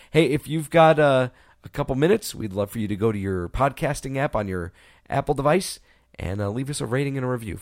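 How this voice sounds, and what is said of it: Hoarse, fading voice. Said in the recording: “I'm starting to lose my voice completely.”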